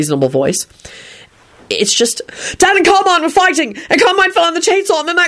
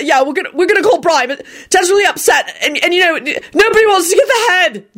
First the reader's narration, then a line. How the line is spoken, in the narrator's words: Jamie blurted out frantically